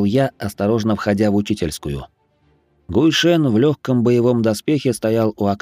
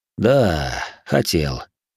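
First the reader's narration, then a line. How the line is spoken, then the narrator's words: Sighing reply. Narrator (Russian): вздохнув, ответил Тифлинг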